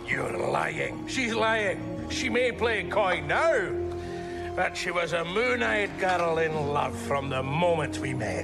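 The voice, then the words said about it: Scottish accent. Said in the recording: “the accent, the Scottish accent”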